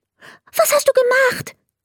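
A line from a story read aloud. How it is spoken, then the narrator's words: Very excited question. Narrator (German): fragte er ganz aufgeregt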